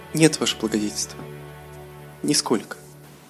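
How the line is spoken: Elf's modest tearful reply. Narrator (Russian): скромно ответила сквозь слезы эльфийка

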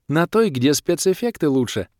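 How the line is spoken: Joyful, smiling. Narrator (Russian): радостно улыбнулась волшебница

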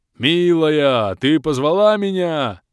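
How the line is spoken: Joyful yell. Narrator (Russian): радостно завопил мужик

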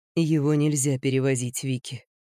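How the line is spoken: Soft. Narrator (Russian): мягко сказал Генри

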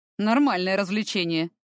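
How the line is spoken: Snorted reply. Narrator (Russian): хмыкнул он в ответ

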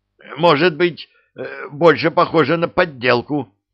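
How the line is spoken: Furious shout. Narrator (Russian): выкрикнул он в ярости

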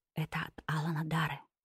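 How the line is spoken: Whispered. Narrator (Russian): прошептала я

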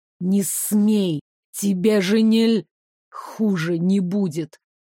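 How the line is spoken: Hoarse whisper. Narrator (Russian): хрипло шепнул Девислав

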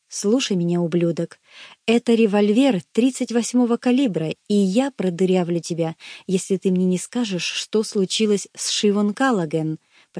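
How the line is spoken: Quiet. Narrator (Russian): проговорил я тихо

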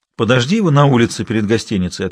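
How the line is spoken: Plain. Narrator (Russian): ответил Андрей

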